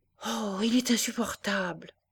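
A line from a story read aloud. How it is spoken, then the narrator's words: Serious embarrassed murmur. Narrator (French): murmura Juliette, qui devint sérieuse, avec un air de figure embarrassée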